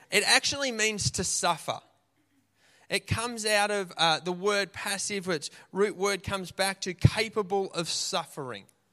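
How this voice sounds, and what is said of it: Australian accent. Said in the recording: “that's my Aussie accent.”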